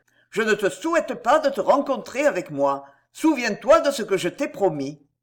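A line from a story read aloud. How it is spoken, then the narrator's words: Shout. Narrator (French): cria Valvert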